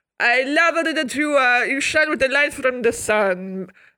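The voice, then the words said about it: Put-on Italian accent. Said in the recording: “What's an Italian? Italian is like,”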